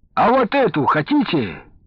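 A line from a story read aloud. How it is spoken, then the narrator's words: Loud cheerful shout. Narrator (Russian): дядя Тёма громко, с широкой улыбкой выкрикнул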